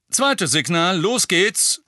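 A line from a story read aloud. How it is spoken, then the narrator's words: Loud. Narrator (German): sagte Lupin laut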